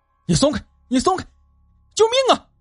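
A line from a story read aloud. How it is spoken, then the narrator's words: Urgent panicked shout. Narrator (Chinese): 关大发觉身体突然下沉，急忙喊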